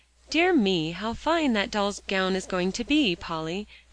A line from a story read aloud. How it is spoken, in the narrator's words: exclaimed Alexia